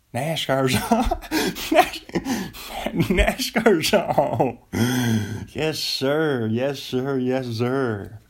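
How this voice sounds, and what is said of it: Put-on Southern American accent. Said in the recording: “Everybody does a Southern accent, right?”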